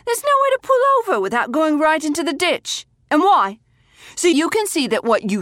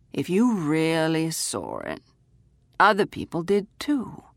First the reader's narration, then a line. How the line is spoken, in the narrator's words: he said calmly